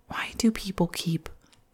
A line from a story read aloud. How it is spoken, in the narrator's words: the woman quietly muttered